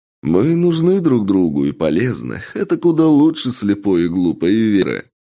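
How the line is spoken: Laughing reply. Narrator (Russian): захохотали в ответ

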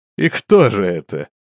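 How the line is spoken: Laughing question. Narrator (Russian): продолжая смеяться, спросил Рок

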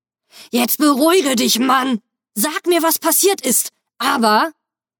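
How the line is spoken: Angry hiss. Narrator (German): fauchte ich ihn an

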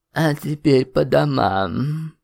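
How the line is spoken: Tired yawn. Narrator (Russian): устало зевнула Гнесина

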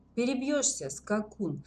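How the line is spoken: Icy-toned reply. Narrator (Russian): ледяным тоном ответила Наташка

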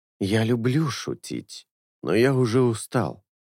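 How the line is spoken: Quiet, insinuating. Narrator (Russian): тихо и вкрадчиво начал Бона

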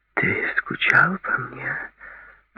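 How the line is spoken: Whisper. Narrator (Russian): прошептала она

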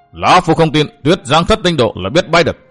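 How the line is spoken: Angry loud shout. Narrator (Vietnamese): Thiên Độc Nhất Đầu cũng tức giận quát lớn

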